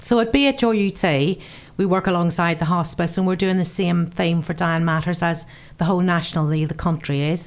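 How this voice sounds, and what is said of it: Northern Irish accent. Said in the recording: “my Northern Ireland accent. Very difficult to understand.”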